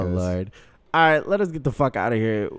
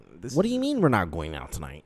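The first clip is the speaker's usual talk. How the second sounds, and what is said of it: Put-on stereotypical white guy voice. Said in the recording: “I'll flip the script and start talking white ... She called me Chad ... don't do Chad ... you sound just like my fucking roommate”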